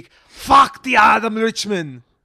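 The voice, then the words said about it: Weak Iron Sheik impression. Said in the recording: “To paraphrase the Iron Sheik ... you're no Melissa Villasenor with that impression.”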